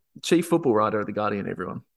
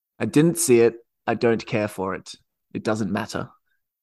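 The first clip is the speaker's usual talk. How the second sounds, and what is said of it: Imitates another person's voice. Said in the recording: “my best Barry Glendening impression ... that's legitimately how that guy talks on football podcasts”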